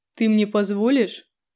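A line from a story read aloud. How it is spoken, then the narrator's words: Snorting. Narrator (Russian): фыркнула Лёва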